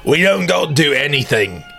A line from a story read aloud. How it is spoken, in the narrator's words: Papa Bog growled